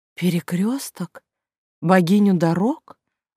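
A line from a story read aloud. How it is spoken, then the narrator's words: Confused question. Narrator (Russian): растерянно переспросила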